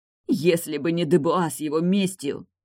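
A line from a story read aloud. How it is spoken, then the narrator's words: Hoarse. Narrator (Russian): хрипела Тильда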